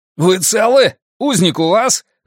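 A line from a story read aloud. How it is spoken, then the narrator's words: Loud yell. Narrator (Russian): заорал Драккайнен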